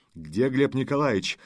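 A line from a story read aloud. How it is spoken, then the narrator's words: Stern question. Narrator (Russian): строго спросил Лешуков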